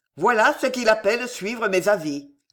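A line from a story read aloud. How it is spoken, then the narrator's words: Growled. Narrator (French): gronda-t-il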